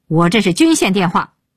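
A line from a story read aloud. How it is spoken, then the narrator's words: Roar. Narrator (Chinese): 鹏飞对电话大吼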